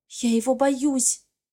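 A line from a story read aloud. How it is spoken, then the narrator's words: Whisper. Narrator (Russian): говорю шепотом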